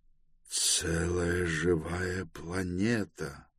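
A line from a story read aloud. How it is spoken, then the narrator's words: Mutter. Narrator (Russian): пробормотал Гендибаль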